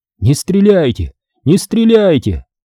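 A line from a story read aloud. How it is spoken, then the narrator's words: Yelling. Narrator (Russian): заорал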